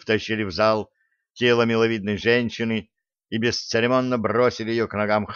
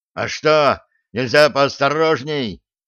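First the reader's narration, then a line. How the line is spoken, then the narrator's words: Enraged yell. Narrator (Russian): заорал взбешенный штурман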